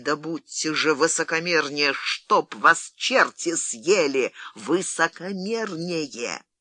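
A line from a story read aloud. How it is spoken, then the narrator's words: Threatening hiss through teeth. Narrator (Russian): с угрозой в голосе сказал Фрэнсис, сквозь зубы зашипел по-английски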